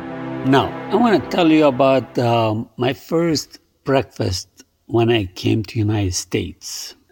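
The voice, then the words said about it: Foreign accent in English. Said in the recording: “you'll get used to my accent”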